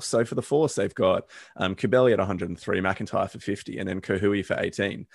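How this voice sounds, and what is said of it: Hoarse, strained voice. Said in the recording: “my voice is gone is because I'm yelling”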